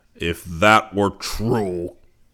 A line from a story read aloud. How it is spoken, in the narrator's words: Zircon bellowed